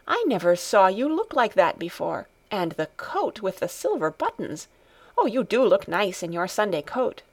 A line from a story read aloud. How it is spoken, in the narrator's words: she exclaimed